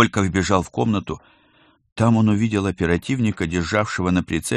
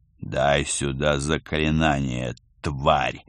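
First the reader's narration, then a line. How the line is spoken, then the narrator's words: Menacing. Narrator (Russian): грозно сказал Пал Палыч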